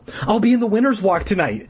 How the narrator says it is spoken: Deirdre exclaimed

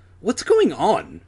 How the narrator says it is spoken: Adam demanded impatiently

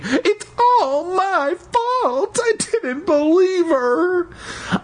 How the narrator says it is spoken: I pictured Aunt Louise wailing

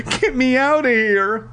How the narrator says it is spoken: he cried

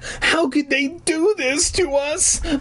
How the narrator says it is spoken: I wailed

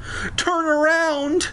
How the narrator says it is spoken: I screamed

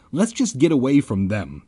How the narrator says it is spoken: I cried

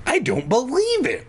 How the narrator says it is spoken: Vanessa exclaimed

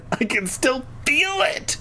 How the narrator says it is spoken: I wailed

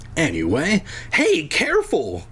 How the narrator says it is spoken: Cole cried

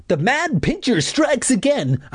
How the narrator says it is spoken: I shouted

